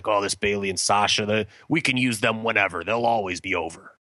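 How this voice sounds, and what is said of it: Weak Vince McMahon impression. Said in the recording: “that's not a good Vince impression”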